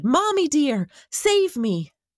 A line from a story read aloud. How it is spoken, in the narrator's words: he shouted